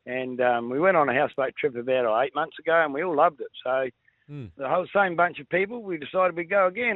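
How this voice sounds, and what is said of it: Slightly croaky, hoarse voice. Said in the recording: “As you can hear, my voice is a little bit croaky”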